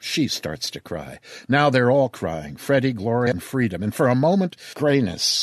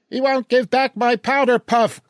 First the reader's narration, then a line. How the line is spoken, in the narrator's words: Glory shrieks